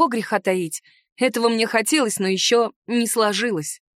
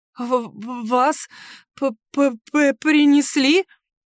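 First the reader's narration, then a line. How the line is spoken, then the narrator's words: Slight stutter. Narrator (Russian): начала чуть заикаться она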